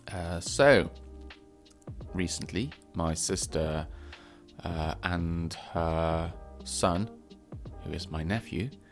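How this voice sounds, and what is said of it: Congested, weird-sounding voice. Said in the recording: “I do still have a cold, in case you're wondering why my voice sounds weird.”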